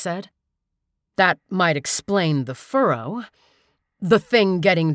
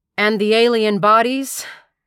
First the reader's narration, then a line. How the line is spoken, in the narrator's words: She asked sarcastically